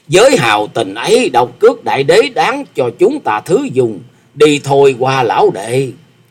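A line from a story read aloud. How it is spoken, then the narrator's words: Hearty loud laughter. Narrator (Vietnamese): Phong Trần Túy Khách ha hả cười to nói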